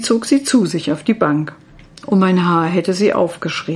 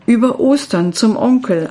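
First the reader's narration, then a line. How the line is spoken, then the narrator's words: Plain. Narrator (German): antwortete sie stattdessen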